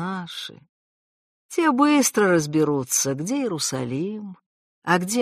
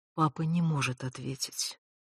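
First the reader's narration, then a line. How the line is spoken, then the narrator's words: Quiet, calm, over phone. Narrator (Russian): сказали в трубке тихо и спокойно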